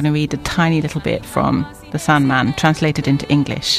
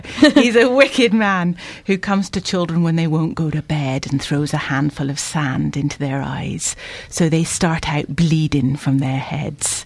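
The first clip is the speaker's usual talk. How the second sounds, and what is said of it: Attempted Plymouth accent. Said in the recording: “I'm going to do it in a Plymouthian accent. ... That's not Plymouthian, is it?”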